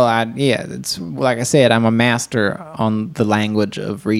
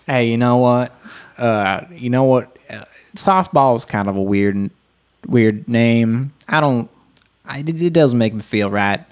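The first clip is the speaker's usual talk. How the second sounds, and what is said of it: Put-on Iowa Midwestern dialect. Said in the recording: “This is Iowa, obviously ... That's a spot on dialect”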